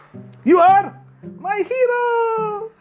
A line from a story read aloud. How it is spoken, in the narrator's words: Adi squealed in delight